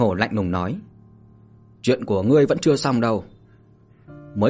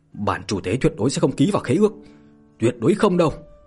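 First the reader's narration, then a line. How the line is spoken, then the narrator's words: Screaming. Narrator (Vietnamese): La Đạo Nam gào thét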